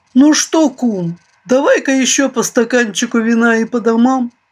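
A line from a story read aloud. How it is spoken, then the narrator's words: Deep bass, beaver. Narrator (Russian): пробасил бобер Шмых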